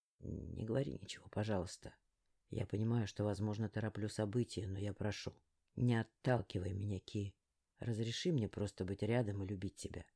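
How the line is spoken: Hoarse whisper. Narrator (Russian): прошептал он севшим голосом

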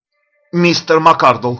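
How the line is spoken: Shouted. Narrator (Russian): крикнул

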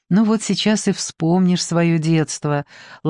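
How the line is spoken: Gentle. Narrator (Russian): ласково проговорила Клаудио

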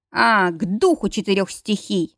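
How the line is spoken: Growl. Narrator (Russian): прорычал он

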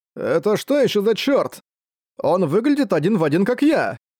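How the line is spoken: Startled exclamation. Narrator (Russian): воскликнул Рамон, отшатнувшись

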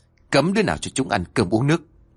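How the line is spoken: Harsh, stern voice. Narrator (Vietnamese): ông còn gằn giọng nói

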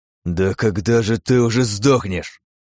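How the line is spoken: Exhaled through gritted teeth. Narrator (Russian): выдохнул Миша сквозь зубы

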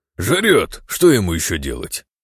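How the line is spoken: Snorting. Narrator (Russian): фыркнул Эликс

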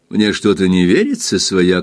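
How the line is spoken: Laughing. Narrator (Russian): смеясь добавил он

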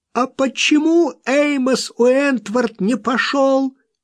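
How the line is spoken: Hysterical angry shout. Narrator (Russian): крикнула она с истерической злостью

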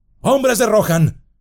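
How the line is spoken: Shouted. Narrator (Spanish): gritó

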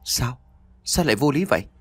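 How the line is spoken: Deeply bewildered question. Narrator (Vietnamese): Anh ta hỏi với một giọng hoang mang cực độ

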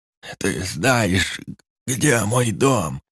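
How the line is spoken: Barely audible breathy rasp. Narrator (Russian): Едва слышно, на одном лишь выдохе прохрипел дед

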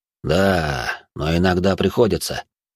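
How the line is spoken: Sighing. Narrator (Russian): вздохнул Магомед

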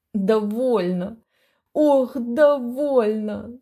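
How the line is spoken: Moaning. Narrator (Russian): стонал он

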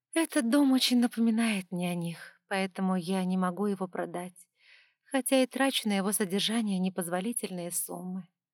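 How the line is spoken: Sigh. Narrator (Russian): вздохнула

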